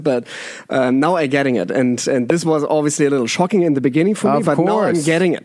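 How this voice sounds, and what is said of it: German accent. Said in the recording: “it's my German accent”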